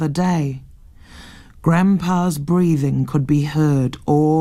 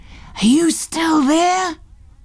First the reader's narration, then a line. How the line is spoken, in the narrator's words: He said in a loud whisper